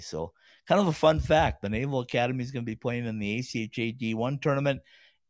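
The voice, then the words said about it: Raspy voice. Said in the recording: “I apologize for the raspy voice. It's been a rough week for me.”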